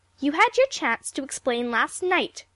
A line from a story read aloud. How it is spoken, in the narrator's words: snapped Aunt Ruth